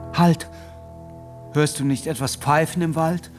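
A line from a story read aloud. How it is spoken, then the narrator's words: Fearful call. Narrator (German): rief Felix ängstlich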